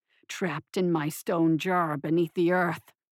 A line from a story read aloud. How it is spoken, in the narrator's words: the tyrant growled